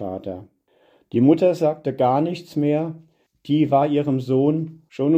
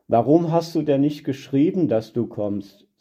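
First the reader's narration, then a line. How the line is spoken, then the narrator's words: Plain, mother. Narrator (German): sagte die Mutter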